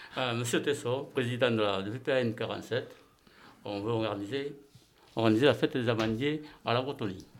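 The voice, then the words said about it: Strong regional rural French accent. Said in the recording (French): “il a l'accent, il est du terroir, il a un accent en appellation d'origine protégée”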